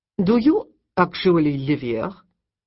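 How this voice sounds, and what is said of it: Thick French accent. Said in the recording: “in a French accent as thick as nightclub smoke”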